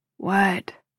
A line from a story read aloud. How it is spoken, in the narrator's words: He groans